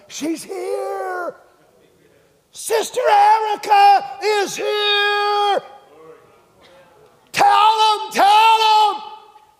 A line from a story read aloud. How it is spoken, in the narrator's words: hollering up